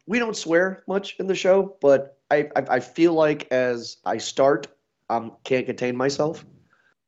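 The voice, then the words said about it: Congested voice from a cold. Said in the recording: “I'm coming over a cold, so sorry, people, if I sound weird.”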